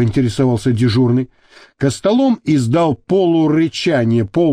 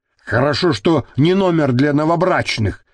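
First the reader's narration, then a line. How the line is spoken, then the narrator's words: Grumbling. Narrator (Russian): проворчал Гарик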